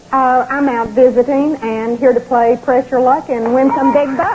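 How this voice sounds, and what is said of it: Slight Texas accent. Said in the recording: “I detect a slight little accent ... that's a great accent ... From Texas?”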